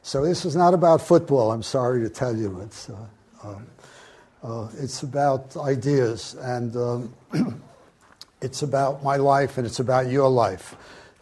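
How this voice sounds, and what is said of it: New York accent. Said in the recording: “I actually started as a pretty straight mechanical engineer out of New York City. I still have the accent.”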